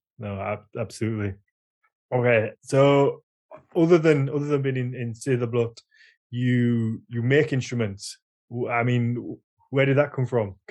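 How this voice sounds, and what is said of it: Natural Yorkshire accent. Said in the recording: “My Yorkshire accent would just come out within seconds... It's your natural accent”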